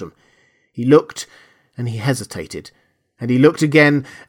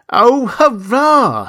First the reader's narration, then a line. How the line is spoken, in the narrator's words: he cried